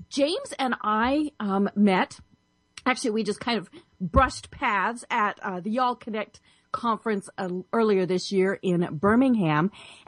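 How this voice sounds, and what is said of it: Slightly hoarse, froggy voice. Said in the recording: “I have a little frog in my throat”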